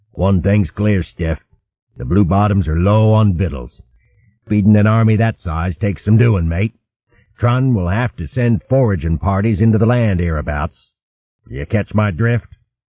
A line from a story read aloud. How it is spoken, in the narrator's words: Stiffener smiled grimly